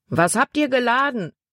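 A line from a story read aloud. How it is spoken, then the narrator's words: A man shouting. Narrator (German): rief ein Mann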